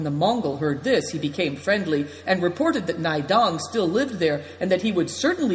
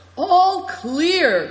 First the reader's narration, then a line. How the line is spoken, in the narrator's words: cried Good Fortune joyfully when the road was free